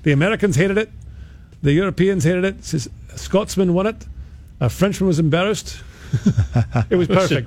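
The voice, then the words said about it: Imitated Scottish accent. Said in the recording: “You're going with your accent. ... Are you trying to do the Scottish thing?”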